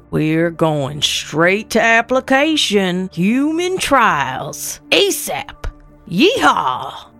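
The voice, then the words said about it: Texas drawl. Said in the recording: “Texas drawl,”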